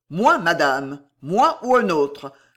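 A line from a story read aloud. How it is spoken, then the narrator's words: Growled, losing control. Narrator (French): gronda Guise, perdant toute mesure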